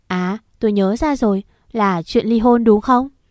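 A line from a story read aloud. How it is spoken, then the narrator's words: Loud uncontrolled outburst. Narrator (Vietnamese): Tuấn cảm xúc không kiềm chế được mà lớn tiếng hay với mẹ của tôi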